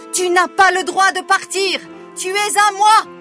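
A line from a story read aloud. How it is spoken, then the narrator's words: Wicked woman screaming. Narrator (French): hurler la méchante femme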